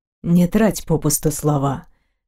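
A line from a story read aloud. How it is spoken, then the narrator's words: Weary exhale. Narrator (Russian): выдохнул Дайрен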